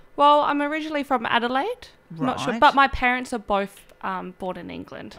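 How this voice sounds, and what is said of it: Posh English-sounding accent. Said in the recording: “It sounds a little bit like an English accent ... Very posh accent.”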